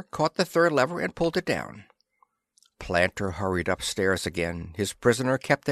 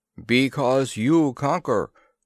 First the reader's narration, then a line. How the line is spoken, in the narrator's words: was the booming reply